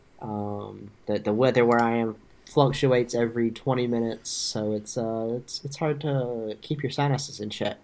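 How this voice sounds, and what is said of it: Congested, stuffy-nosed voice. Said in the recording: “my nose is a little stopped up, so if I sound weird”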